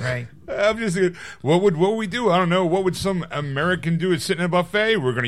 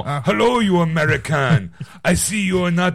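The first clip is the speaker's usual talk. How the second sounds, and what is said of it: Put-on thick French accent. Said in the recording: “he has a kind of thick French accent.”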